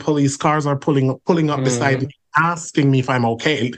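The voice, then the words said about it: Speaks English with a noticeable accent. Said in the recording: “I'm a black man. I'm 6'2". I have an accent.”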